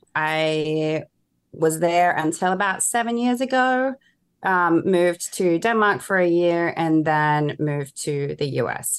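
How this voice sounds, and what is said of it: Australian accent, slightly mixed. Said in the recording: “we have slightly different accents ... I'm originally Australian ... My accent has been a little bit messy for quite a while now ... I still have the twang there”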